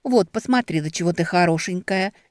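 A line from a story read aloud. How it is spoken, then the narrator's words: Steady-voiced lie. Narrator (Russian): не дрогнувшим голосом соврала Бетти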